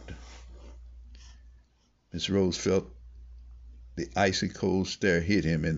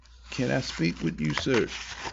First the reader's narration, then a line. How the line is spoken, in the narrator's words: said Mr